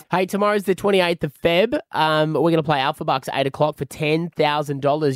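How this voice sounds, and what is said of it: Rough, deeper sick-sounding voice. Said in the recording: “Apologies for coughing, everyone. ... your voice is sounding a bit sketchy. ... Deeper.”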